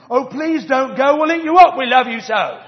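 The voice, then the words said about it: Put-on British accent. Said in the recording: “the wild things cried, and they always have a British accent for some reason”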